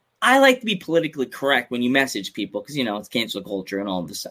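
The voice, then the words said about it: Long Island accent. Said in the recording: “I sound like I'm saying cancer culture, like dang Long Island accent”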